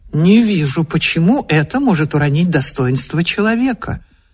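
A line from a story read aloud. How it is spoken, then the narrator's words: Calm objection. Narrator (Russian): Муж спокойно возразил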